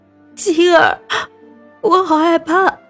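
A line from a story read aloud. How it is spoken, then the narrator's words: Frightened crying. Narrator (Chinese): 从噩梦中醒来 哭了起来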